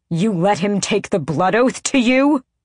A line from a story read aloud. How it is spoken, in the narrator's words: Adian bellowed